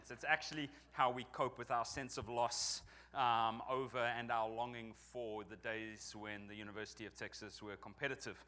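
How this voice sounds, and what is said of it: Non-local accent. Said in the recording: “as you may detect from my accent, I'm not from around here”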